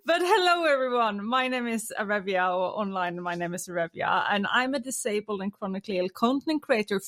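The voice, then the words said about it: Norwegian accent in English. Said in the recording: “from Norway, which is where you hear my accent from”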